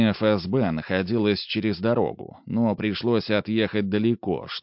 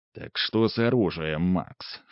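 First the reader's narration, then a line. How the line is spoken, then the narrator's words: Low-voiced question. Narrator (Russian): вполголоса спросил Ремезов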